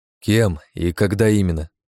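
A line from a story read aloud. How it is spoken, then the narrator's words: Plain question. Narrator (Russian): спросил я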